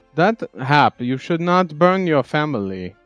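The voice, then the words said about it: Raised, louder voice. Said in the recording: “raising my voice”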